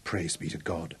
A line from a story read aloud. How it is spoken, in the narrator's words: she whispered, as she felt it fluttering under her fingers